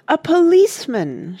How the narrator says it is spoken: shouted Mona and Randy and Rush in unison

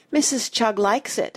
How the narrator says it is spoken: said Missy sadly

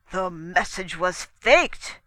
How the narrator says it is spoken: boomed

